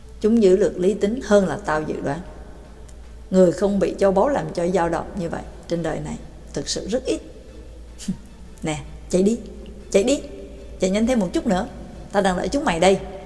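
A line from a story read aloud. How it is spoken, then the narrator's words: Soft, young man. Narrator (Vietnamese): Người trẻ tuổi khẽ nói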